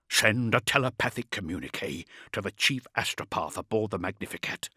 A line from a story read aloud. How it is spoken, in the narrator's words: Beaumont said, his voice low and furious